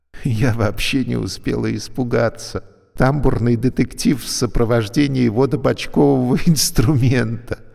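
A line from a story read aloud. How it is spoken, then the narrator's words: Laughing. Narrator (Russian): засмеялась Юлька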